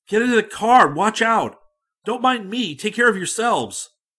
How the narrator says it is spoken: bruised and bumped, I cried aloud to my men

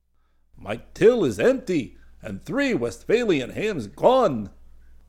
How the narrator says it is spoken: the counterman was shouting now

